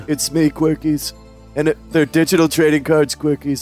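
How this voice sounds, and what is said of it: Imitates another person's voice. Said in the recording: “that was my impression. ... It's a pretty good, one, actually. ... that was Marlon Brando”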